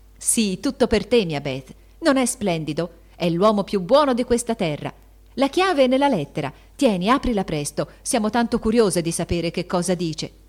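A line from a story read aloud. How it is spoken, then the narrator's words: Shouted. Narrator (Italian): gridò Joe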